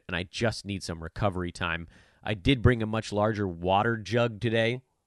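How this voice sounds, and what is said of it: Gravelly, strained voice. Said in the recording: “you've heard that I sound uh, a bit gravelly, is probably the kindest way to put it”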